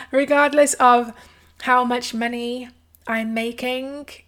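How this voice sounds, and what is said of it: Emotional, choked-up voice. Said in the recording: “getting emotional all of a sudden”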